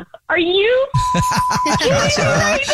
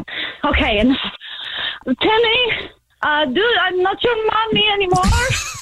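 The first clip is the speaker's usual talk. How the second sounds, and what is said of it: Attempted French accent. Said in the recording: “hop on one foot and in your best French accent ... Is that French enough?”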